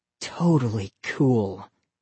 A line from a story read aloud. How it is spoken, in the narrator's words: he murmured